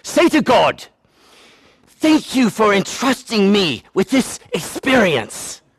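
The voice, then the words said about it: Attempted English accent, poorly done. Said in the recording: “she's from England ... that's not an English accent. I'm sorry.”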